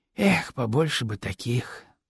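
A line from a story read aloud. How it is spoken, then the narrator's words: Sighing. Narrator (Russian): снова вздохнул Искандер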